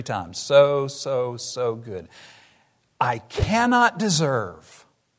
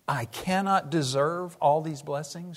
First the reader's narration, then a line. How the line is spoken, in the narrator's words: she said